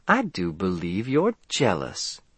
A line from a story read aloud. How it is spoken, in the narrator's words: said the other woman, her voice dropping in volume